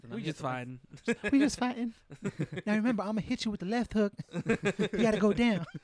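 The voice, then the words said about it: Imitates another person's voice. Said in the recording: “Why am I sounding like a lame-ass ... Michael ... Jackson?”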